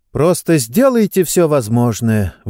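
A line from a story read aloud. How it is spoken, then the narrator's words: Breathy exhale. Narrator (Russian): выдохнула Сестеро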